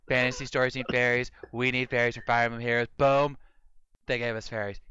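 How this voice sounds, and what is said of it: Donald Trump impression. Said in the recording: “my Trump impersonation”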